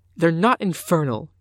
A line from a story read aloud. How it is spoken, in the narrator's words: she said hotly